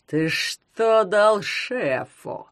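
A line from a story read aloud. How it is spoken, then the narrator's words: Growling. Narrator (Russian): прорычал он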